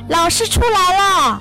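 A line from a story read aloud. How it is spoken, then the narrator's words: Calling out. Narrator (Chinese): 有人就叫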